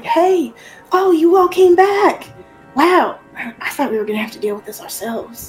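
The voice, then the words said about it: Put-on Southern accent. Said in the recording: “I'm doing a southern accent now.”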